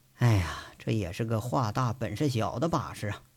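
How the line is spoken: Sighing, muttering to himself. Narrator (Chinese): 赵宏伟叹了口气，自言自语着

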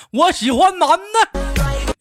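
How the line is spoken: Gruff shout. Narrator (Chinese): 我粗着嗓子冲他吼了句

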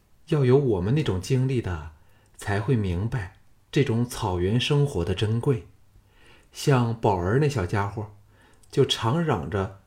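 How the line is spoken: Sighing. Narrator (Chinese): 秦青叹道

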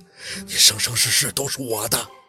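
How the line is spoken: Low hoarse voice, close. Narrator (Chinese): 他声音压着几分嘶哑，贴到宝四耳边

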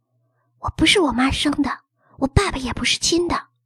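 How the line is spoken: Hesitant quick whisper. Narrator (Chinese): 妞犹豫了一会儿，小声而快速地说

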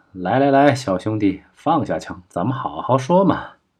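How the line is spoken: Smiling, coaxing. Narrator (Chinese): 李自省微笑道

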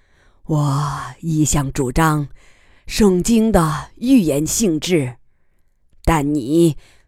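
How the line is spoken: Soft sigh. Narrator (Chinese): 他轻叹道

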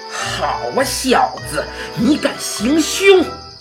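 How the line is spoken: Roaring shout. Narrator (Chinese): 夹克衫吼叫了一声

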